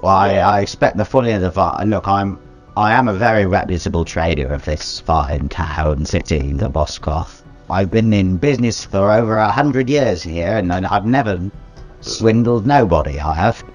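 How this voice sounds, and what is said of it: Put-on Cockney accent. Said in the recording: “I'm becoming increasingly cockney ... where's this accent coming from?”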